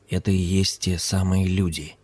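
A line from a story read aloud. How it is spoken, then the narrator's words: Whisper. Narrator (Russian): шепнул Хари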